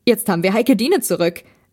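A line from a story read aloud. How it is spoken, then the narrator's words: Called out. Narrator (German): rief Benjamin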